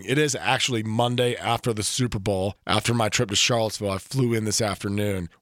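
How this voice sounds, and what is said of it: Hoarse voice. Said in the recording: “as you can tell, I am hoarse from yelling at ugly Duke players for a couple of hours on Saturday afternoon”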